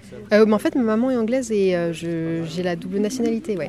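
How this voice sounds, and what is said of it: Slight English accent in French. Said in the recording (French): “Vous-même, vous êtes anglaise ? ... parce qu'à votre accent, je me posais la question.”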